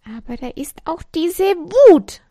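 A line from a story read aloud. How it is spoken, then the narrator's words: Called out. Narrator (German): rief sie und schlug auf die Decke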